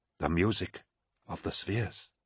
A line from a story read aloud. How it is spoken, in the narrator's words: said Cinderman quietly